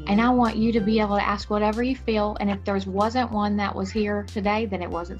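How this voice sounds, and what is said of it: Texan accent. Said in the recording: “you hear my texan accent”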